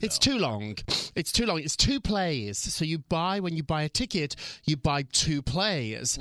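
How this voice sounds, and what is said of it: British accent. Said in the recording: “The British accent's already there”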